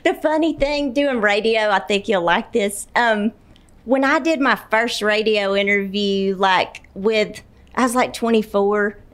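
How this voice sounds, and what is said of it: Alabama Southern accent. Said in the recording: “From Alabama. Hmm. Gadsden, Alabama. ... That's why I love your accent.”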